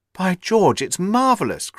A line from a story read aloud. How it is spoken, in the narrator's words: cried Hopkins, in an ecstasy of admiration